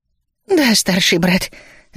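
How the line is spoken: Relieved sigh. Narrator (Russian): облегченно вздохнул Ми

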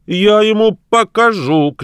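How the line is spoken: Shouting. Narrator (Russian): крикнул Чернобородый

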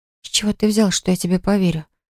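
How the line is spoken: Whisper. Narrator (Russian): прошептала я

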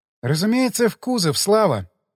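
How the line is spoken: Heavy sigh. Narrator (Russian): тяжело вздохнула девушка

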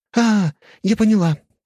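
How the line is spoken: Exclaimed. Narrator (Russian): воскликнула Виктория

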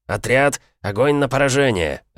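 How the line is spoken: Barked command. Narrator (Russian): рявкнул он

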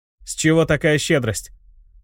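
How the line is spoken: Snort. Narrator (Russian): Я хмыкнул

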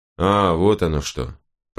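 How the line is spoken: Lazy drawl. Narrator (Russian): проговорил он лениво

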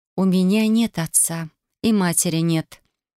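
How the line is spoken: Completely calm reply. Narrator (Russian): произнесла в ответ совершенно спокойно

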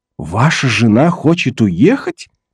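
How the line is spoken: Astonished exclamation. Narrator (Russian): в изумлении воскликнул Том

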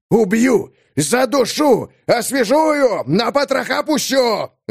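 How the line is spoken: Yelling. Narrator (Russian): вопит рука Додж

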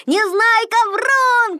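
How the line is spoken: Shouting group. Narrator (Russian): кричали они

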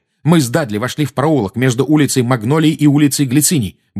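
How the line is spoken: Fast, suppressed anger. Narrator (Russian): быстро заговорил Гарри, стараясь обуздать свою злость

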